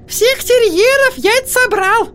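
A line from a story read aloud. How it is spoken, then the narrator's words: Thin squeaky voice. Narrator (Russian): пропищала сестра Йеннифер тонким голоском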